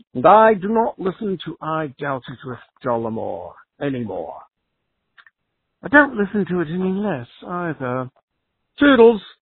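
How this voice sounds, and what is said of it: Put-on British accent. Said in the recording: “with the most tremendous British accent”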